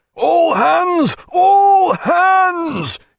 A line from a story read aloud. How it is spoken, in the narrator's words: he roared